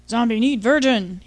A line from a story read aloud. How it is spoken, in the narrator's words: grunted